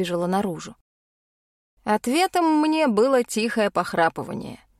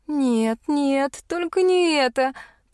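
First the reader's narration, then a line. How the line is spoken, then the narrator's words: Moaning. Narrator (Russian): простонала я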